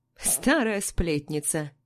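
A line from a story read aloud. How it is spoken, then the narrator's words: Giggle. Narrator (Russian): хихикает Валя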